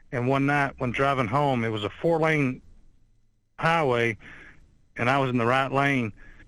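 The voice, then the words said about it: Southern Alabama accent. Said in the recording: “I'm from Alabama and sound like I got that to kill a mockingbird accent”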